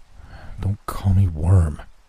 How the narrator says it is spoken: he said through clenched teeth

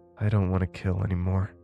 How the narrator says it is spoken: I said softly

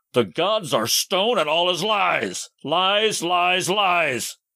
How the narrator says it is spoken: groaned aloud, and he cursed, shouting at the sky

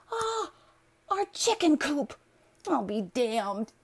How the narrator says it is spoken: she cried

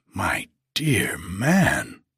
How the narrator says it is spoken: I exclaimed

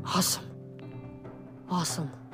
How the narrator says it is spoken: grinned muttering

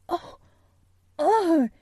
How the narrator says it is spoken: Colin cried out in delight

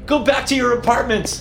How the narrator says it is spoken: yelled

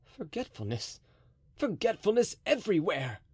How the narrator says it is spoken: cried the officer with a noble air

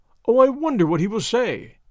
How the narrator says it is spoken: said Suzanne merrily

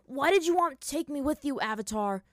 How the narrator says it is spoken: Sokka called to Aang angrily

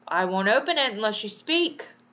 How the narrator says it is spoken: Peter cried

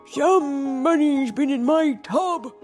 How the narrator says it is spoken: bellowed

